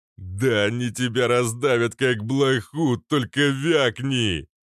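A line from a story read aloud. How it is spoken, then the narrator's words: Loud laughter. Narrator (Russian): захохотал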